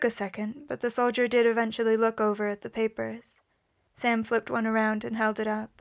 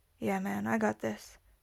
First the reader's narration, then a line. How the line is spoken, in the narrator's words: said Sam in a low voice